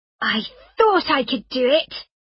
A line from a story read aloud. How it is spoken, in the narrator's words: cried Rosalie